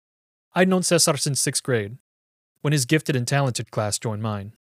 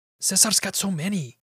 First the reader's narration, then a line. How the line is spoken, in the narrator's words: Pablo whispered in his pubescent, scratchy baritone